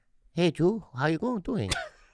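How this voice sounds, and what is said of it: Put-on accent. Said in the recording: “Don't do that accent.”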